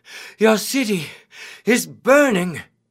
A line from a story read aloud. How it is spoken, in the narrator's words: the messenger cried